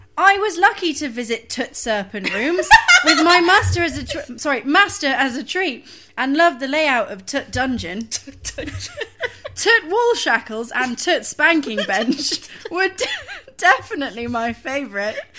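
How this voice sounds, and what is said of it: Attempted northern English accent. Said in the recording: “I can't do a Yorkshire accent ... Just do generic Northern ... I'm terrible at accents ... Just do any accent”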